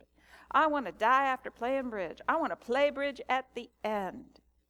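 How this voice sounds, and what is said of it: Put-on Southern US accent. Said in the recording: “she said it with more of a southern accent because she was from Jackson, Mississippi”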